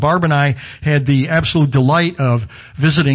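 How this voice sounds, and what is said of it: Usual voice. Nothing is said of it.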